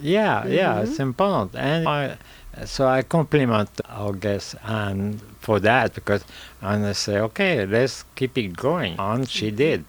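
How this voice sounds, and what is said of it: French accent. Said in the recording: “It's that French accent”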